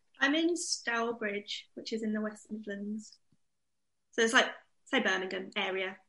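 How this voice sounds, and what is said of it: Slight Birmingham accent. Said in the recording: “I heard a bit of a Birmingham accent.”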